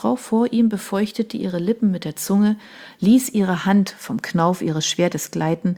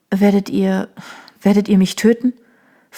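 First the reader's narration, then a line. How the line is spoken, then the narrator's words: Trembling voice. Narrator (German): fragte sie mit bebender Stimme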